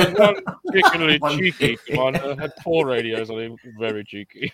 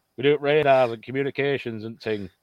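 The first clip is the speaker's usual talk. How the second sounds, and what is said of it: Put-on northern English accent. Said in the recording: “I don't know why I've gone all northern then. ... It's good accent.”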